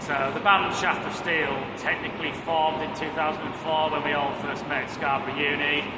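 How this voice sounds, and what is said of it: Northern English Cumbrian accent. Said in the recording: “You can probably tell from our accents that we're not from London originally... up in Kendal in Cumbria”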